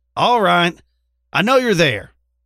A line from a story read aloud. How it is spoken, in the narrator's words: she hollered